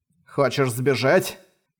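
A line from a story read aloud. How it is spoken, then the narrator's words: Snort. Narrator (Russian): хмыкнул Манхао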